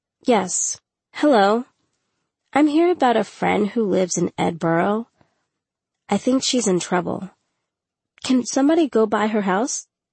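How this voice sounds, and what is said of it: Child putting on an adult voice. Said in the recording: “giving him my best adult voice”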